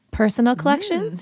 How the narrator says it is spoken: said Hermione

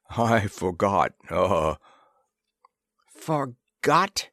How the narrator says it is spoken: echoed Disbro scornfully

